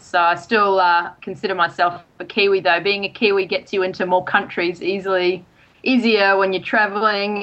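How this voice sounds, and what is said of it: Australian accent. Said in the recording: “you have more of an Aussie accent than a Kiwi accent, for sure ... I lost my New Zealand accent very long ago”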